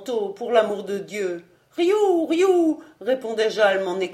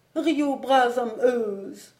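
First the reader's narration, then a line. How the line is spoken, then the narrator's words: Sad voice. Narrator (French): dit d'une voix triste le pauvre marchand de mouches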